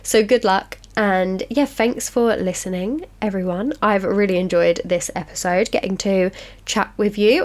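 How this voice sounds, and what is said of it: Sick, unwell-sounding voice. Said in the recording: “if you can hear in my voice that I'm ill ... I always sound worse in my head than I actually come across ... I'm not very well”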